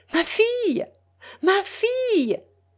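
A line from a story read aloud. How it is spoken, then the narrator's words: Calling from afar. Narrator (French): s'écria Madame Hamel d'aussi loin qu'elle put voir Mélanie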